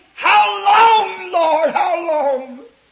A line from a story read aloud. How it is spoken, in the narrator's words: screaming